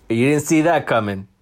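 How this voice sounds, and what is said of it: Imitates another person's voice. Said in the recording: “my Walter Mercado impression”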